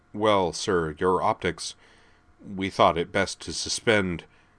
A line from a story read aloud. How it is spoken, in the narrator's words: the former said hesitantly